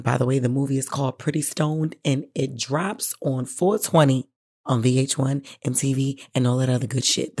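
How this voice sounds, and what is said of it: Hoarse, deep-sounding voice. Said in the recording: “my voice is hoarse and I sound like somebody's dad ... I've been screaming to the top of my lungs”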